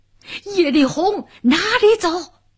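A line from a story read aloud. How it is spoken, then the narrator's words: Thunderous roar, big man. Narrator (Chinese): 一个红脸大汉，响起炸雷般一声呐喊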